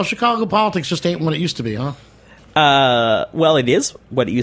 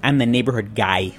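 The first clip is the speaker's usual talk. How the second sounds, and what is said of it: Chicago accent. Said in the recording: “in true Chicago with a Chicago accent”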